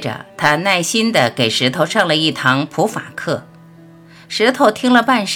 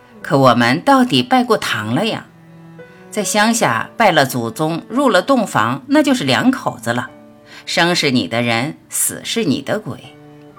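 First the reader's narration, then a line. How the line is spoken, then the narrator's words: Sad sighing. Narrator (Chinese): 眼神又暗淡下来，叹息道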